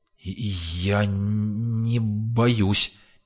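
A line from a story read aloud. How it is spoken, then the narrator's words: Hesitant, slight stutter. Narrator (Russian): неуверенно, чуть заикаясь, сказал фельдшер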